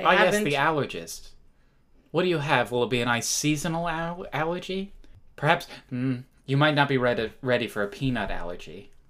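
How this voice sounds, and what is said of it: Playful impression of an allergist. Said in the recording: “That was my allergist impression.”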